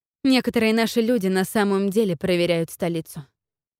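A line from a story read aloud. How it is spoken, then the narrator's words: Plain. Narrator (Russian): сказала она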